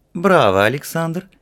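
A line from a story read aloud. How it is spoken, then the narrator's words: Cheerful. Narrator (Russian): весело сказала Альмея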